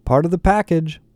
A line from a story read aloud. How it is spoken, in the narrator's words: PowerSurf said happily